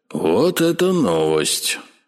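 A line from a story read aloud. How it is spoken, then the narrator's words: Drawled. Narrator (Russian): протянул Игорь Владимирович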